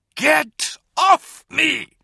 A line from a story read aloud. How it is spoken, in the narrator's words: She shrieked